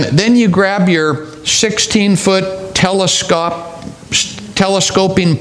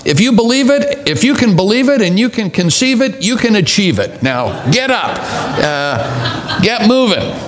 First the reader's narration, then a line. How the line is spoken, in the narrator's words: you shout